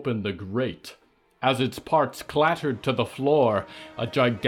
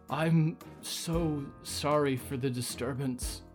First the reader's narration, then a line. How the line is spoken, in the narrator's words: Brooklyn pleaded quietly